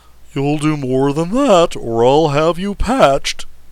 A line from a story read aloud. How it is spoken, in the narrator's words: roared the angry Boolaroo